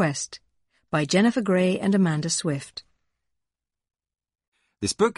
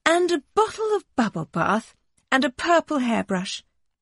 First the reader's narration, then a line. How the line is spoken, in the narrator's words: she sighed